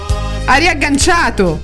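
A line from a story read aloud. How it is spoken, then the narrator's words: Shouted. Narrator (Italian): gridai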